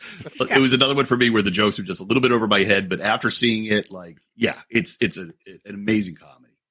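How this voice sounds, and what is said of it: Usual voice. Nothing is said of it.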